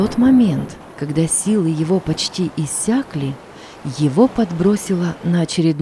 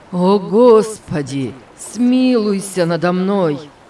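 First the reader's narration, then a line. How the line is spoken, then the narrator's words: Groaned. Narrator (Russian): простонал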